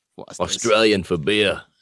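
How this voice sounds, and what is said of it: Bad put-on Australian accent. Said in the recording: “That was a really bad Australian accent. ... That was awful, dude. Awful.”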